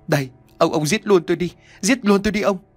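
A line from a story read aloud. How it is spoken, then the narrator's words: Crying. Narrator (Vietnamese): Bà Hiền tiếp tục khóc lóc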